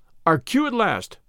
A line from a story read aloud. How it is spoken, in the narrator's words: cried Valentin